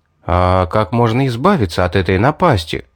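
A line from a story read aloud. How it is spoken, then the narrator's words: Plain. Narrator (Russian): спросил я Кару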